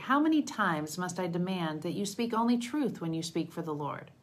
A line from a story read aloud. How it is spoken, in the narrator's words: the king replied sharply